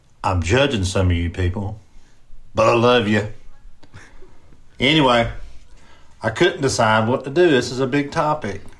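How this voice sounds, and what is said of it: Southern US country accent. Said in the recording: “I've got a country accent”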